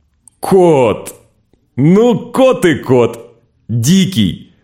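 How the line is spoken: Snorting, laughing, shouting. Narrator (Russian): Корней фыркнул, захохотал, поперхнулся, закашлялся, снова захохотал и закричал

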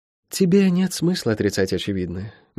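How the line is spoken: Soft. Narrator (Russian): мягко сказала Цейра Сани

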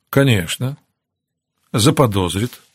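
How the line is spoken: Calm agreement. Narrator (Russian): спокойно согласилась Ноэль

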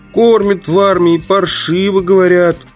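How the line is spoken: Persistent whining. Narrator (Russian): упорно скулил мой соратник

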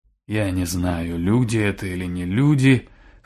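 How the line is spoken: Hoarse. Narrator (Russian): хрипло ответил Жмур

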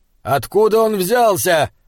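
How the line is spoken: Shouted. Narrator (Russian): крикнул герцогу Айнскалдер

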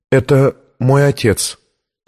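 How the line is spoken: Trembling voice. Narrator (Russian): ответила дрожащим голосом Виктория

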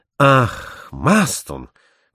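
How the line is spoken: Exclaiming. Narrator (Russian): воскликнул Барбикен

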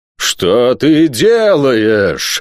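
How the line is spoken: Howling. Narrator (Russian): взвыл Нетопырь

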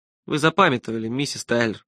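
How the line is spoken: Gentle. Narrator (Russian): мягко сказал я

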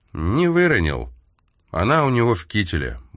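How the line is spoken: Gloomy reply. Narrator (Russian): мрачно ответил Смит

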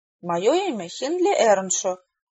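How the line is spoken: Slurred drunken mumble. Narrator (Russian): невнятно пробормотал пьяный

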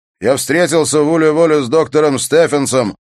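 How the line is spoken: Shouted. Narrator (Russian): прокричал он

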